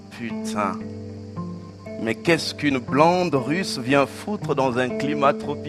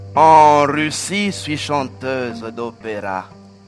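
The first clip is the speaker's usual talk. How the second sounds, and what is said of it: Put-on foreign accent. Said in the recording (French): “Elle a un accent.”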